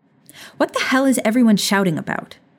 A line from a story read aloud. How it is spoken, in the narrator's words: Tonks snapped